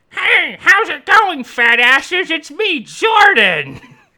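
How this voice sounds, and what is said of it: Poor cartoon character impression. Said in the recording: “Eric Cartman is here with us today ... This is a terrible impression.”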